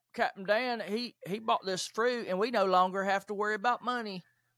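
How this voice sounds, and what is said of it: Forrest Gump impression. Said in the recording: “I'm going to see if I can do my best Forrest Gump impression here.”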